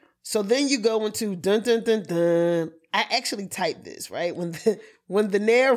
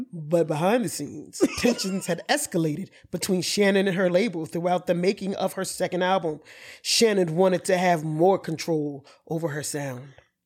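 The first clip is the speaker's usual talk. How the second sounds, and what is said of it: Documentary narrator voice, Gary Williams impression. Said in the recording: “Gary Williams ... my vocals ... the Gary Williams impersonation”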